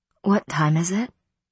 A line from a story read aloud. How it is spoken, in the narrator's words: My voice was hoarse